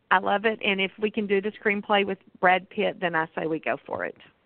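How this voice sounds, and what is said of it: Amarillo Texas accent. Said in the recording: “your Amarillo accent”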